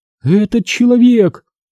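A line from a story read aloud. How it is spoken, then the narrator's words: Cracked voice. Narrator (Russian): изрекла она надтреснутым голосом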